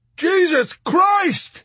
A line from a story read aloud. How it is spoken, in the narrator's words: he screamed at Arfi in tortured amazement